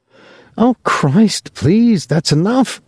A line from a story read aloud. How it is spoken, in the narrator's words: she cried finally